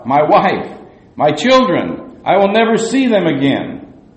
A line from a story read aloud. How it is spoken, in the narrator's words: he cried out